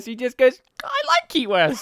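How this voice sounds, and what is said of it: Dorky imitated voice. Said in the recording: “is in a dorky voice.”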